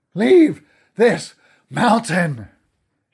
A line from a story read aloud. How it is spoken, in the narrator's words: shouted